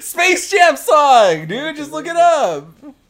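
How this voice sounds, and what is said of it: Yelling. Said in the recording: “Why are you yelling at me? ... I'm sorry. Stop yelling.”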